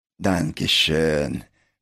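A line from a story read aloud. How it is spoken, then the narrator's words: Indistinct tearful grateful mumble. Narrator (Russian): пробормотал Пин что-то неразборчиво, смахивая слезу благодарности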